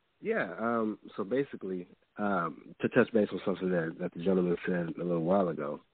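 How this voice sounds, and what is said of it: Sick-sounding voice. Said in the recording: “Kind of sick, so that's why my voice is like this”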